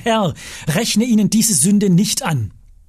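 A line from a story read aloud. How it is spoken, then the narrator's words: Loud call. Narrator (German): rief mit lauter Stimme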